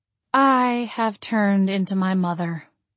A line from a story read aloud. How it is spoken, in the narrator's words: I sighed